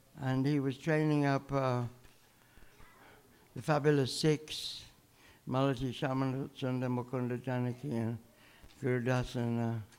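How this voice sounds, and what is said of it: British accent. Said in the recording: “I'm from London, by the way. ... Can you follow my British accent?”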